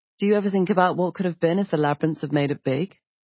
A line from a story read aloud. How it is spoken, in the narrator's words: He laughed a little sadly